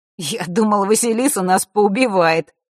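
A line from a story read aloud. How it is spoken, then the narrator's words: Wry grunt. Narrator (Russian): хмыкнул на это Маар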